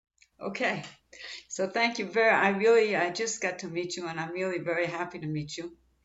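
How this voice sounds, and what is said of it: Israeli-accented English, slightly congested voice. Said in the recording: “I have a little bit of a cold ... if I sound like I have an Israeli accent”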